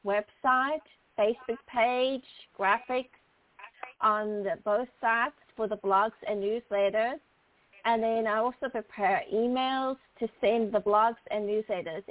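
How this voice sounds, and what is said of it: South African accent. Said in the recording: “you have such a beautiful accent ... I was born and raised in Port Elizabeth, South Africa”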